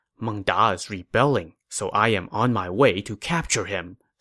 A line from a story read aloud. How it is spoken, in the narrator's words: Sima Yi whispered